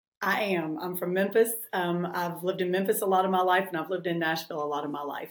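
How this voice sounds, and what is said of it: Tennessee accent. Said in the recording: “I think you have the best accent. Currently, you're in Nashville, Tennessee? ... I can't get rid of the accent. I went to law school in New York, and everybody just laughed every time I opened my mouth in class.”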